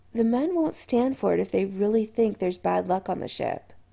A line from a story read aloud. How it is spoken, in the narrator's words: Adam said quietly